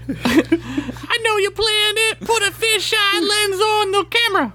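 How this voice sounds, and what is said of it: Imitates another person's voice. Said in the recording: “That was a good impression. ... I thought I was in the room with the King Ad-Rock.”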